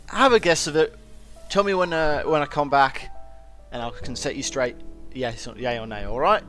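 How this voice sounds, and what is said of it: Character voice with an accent. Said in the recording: “I love your accent. ... what kind of accent is it that you have? ... my accent.”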